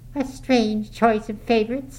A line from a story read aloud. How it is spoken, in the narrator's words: she observed scornfully